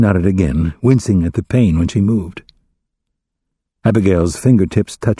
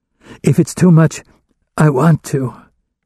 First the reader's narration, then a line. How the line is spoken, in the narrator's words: Emma insisted, her voice strained, like a person much older than her few years